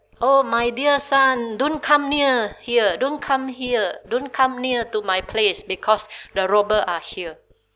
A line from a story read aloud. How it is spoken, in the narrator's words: his parent, even though they are beaten to death, and the parents shouted